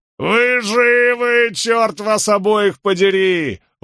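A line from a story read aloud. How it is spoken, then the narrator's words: Ecstatic yell. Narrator (Russian): восторженно завопил Барак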